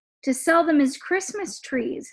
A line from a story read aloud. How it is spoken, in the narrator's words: his father said